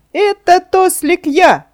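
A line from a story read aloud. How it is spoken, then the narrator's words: Laughing reply. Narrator (Russian): смеясь, ответил деревянный человечек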